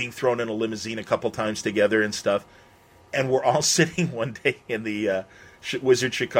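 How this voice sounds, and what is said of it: Usual voice. Nothing is said of it.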